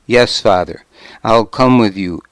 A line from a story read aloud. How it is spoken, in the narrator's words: Æthelstan said